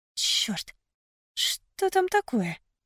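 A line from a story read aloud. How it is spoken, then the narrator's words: Mutter. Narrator (Russian): пробормотала я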